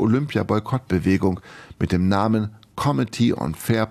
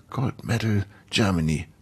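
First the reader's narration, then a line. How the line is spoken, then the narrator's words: Hissing. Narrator (German): zischte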